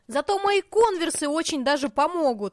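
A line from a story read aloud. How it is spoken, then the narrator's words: Exclaim. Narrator (Russian): воскликнула Артемида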